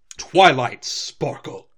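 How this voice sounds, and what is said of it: Stern scolding mom voice. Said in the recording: “It's more stern. ... it's that mom voice. Like, you better stop what the fuck you're doing.”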